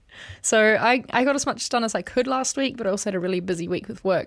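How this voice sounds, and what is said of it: Slightly husky voice. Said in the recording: “hear it in my voice. It's a wee bit husky.”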